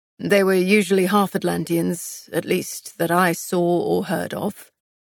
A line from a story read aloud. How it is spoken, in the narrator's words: Castile answered, his voice rough